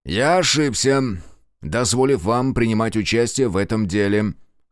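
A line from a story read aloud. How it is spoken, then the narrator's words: Dry, cold. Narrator (Russian): сухо и холодно заявил сыщик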